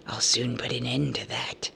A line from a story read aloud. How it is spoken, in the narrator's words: hissed the angry spider